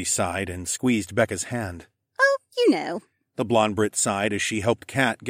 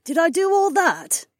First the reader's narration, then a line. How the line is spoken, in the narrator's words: Debbie laughed